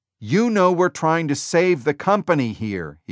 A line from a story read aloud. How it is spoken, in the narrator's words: he shouted